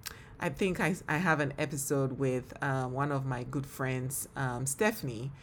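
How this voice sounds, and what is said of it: Speaks with a noticeable accent. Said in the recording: “This girl with an accent ... oh, you have an accent ... I do have an accent ... Sometimes people say that the accent sounds American.”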